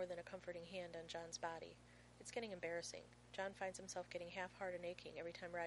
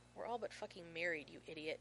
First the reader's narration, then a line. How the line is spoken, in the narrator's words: John hisses